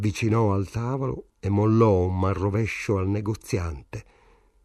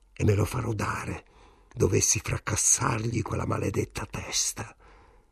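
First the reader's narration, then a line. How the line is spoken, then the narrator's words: Fat man growling. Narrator (Italian): ringhiò il grasso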